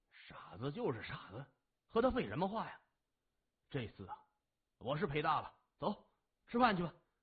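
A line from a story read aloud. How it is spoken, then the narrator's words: Muttering. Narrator (Chinese): 他嘟囔着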